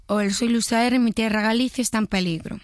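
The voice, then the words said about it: Imitates another person's voice. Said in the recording (Spanish): “Luis Zahera normal ... Un poco más rasgado, si puedes.”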